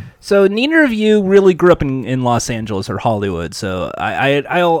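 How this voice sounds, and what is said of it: Usual voice. Nothing is said of it.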